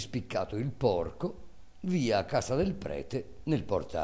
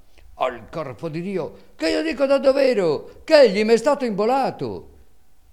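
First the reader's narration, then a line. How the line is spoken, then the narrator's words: Shouting louder. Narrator (Italian): Calandrino gridava allora più forte e diceva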